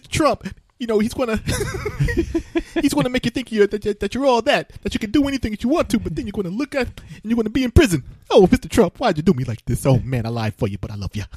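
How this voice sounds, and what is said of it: Imitates another person's voice. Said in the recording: “that was a impersonation of Ben Stiller's impersonation”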